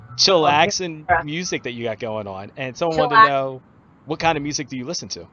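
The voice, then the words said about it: Philadelphia-area accent. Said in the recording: “I'm from the Philadelphia area ... People are like, are you from Philly? Are you from Jersey? Are you from New York? ... it's just it's that accent that I have.”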